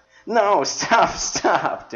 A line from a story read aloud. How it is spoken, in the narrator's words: Denny laughed